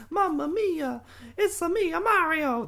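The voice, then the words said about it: Weak Mario impression. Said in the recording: “that was not a great impression. Still, somehow better than Chris Pratt.”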